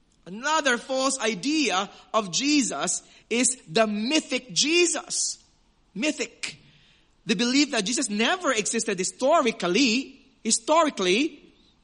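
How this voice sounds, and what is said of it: Filipino accent. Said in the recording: “That's the Filipino accent coming out of me there.”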